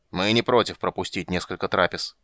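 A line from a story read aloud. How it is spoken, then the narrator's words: Grumbling, stressing one word. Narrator (Russian): проворчал Регар, голосом выделив местоимение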